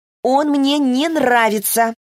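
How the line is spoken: Loud repetition. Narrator (Russian): Зо громко повторила

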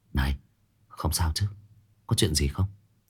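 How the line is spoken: Whisper. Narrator (Vietnamese): anh ta đang thì thầm nói chuyện với Dư Tô

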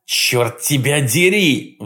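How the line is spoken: Roaring. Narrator (Russian): взревел он

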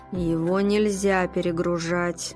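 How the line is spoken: Through gritted teeth. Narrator (Russian): процедил Ройтер

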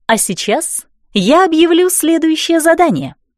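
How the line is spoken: Joyful announcement. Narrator (Russian): радостно провозгласила Донателла

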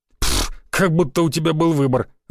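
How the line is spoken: Laughing. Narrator (Russian): засмеялся Георгий

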